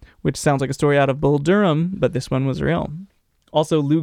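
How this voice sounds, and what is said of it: Usual voice. Nothing is said of it.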